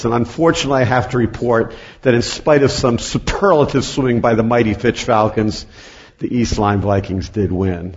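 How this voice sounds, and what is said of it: Hoarse, strained voice. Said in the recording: “You'll hear my voice and you'll say he's got a great cold ... I cheered like crazy ... I almost lost my voice”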